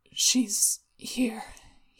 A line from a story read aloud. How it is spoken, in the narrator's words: he mumbled